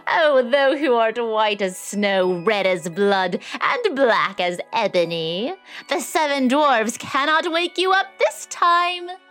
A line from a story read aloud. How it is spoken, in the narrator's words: The queen, laughing loudly, cried out